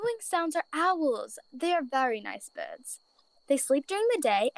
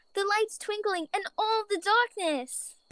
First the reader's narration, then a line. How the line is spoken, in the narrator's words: Bella whimpered